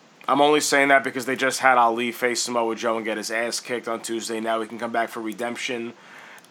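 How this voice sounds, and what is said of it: Hoarse, strained voice. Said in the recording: “I think I'm losing my voice.”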